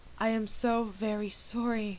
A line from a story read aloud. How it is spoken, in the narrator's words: she breathed